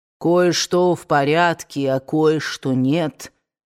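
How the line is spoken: Deep bass voice. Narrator (Russian): пробасил дядя Генри

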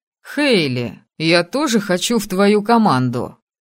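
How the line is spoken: Sudden laughing. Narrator (Russian): вдруг рассмеялся Виктор

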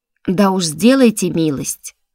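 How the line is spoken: Snappish retort, octopus. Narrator (Russian): огрызнулся осьминог

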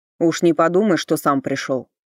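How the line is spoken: Snapped. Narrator (Russian): огрызнулся Йорк

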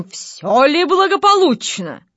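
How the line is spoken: Stern question. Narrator (Russian): спросил строгим голосом

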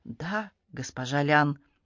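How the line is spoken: Timid. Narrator (Russian): робко сказал он

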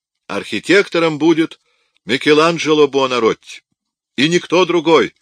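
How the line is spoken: Shouting. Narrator (Russian): кричал он

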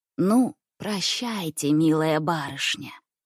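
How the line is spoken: Tender whisper. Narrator (Russian): ласково зашептал мне Никифор Матвеевич

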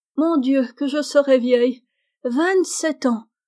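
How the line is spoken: Exclaiming. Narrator (French): s'écria Meg

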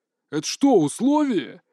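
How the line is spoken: Rude question. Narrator (Russian): грубо спросил Лысый

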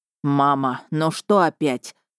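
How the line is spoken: Irritated. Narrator (Russian): сказал лорд Кайс раздраженно

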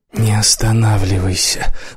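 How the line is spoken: Barely audible whisper. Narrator (Russian): голос прозвучал еле слышным шепотом

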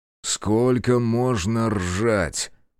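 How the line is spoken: Angry bark. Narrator (Russian): зло рявкнул Яргерт, злее, чем она ждала

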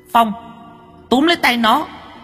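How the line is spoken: Yell. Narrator (Vietnamese): nó hét lên một tiếng

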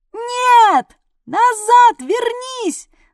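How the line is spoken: Yelling. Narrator (Russian): заорала я

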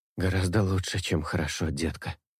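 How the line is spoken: Hoarse. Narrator (Russian): хриплю

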